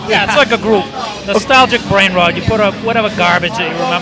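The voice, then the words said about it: New Hampshire accent. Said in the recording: “if I have an accent, ... I'm a hick from New Hampshire, so I sound worldwide. A little funny. ... I hear it.”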